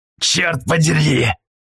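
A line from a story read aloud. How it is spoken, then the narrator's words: Growled. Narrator (Russian): прорычал Полос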